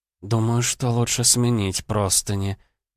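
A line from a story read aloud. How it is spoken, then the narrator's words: Muttered. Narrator (Russian): пробормотала она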